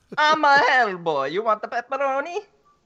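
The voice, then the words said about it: Bad put-on Italian accent. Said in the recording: “the worst Italian impersonation ever”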